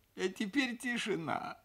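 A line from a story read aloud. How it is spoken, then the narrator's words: Tearful voice. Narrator (Russian): сказал я плачущим голосом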